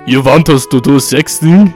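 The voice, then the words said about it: Put-on Russian accent. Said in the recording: “In his Russian accent.”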